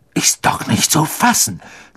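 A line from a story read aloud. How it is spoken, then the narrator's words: Indignant hiss. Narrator (German): zischte Wood empört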